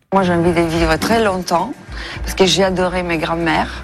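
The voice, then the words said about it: Foreign woman's accent speaking French. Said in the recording (French): “Ça n'est pas une personnalité française, mais elle parle très bien le français. ... l'accent pourrait d'ailleurs vous mettre sur la voie”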